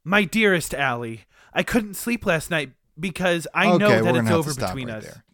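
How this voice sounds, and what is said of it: Proper British accent. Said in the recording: “Get rid of that whatever British proper accent.”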